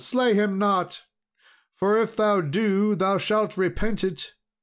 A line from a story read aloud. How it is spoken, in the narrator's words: cried the damsel